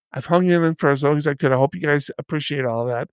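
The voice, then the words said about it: Strained, worn-out voice. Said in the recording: “I don't have the voice to carry this podcast today by myself ... My voice is already given out.”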